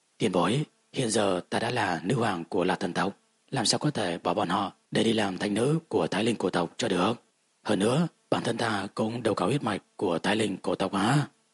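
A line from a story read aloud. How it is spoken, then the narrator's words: Reluctant sigh, apologetic. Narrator (Vietnamese): Lạc Ly bất đắc dĩ thở dài một tiếng, có chút áy náy nói ra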